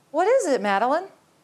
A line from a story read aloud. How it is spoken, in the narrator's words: She said sweetly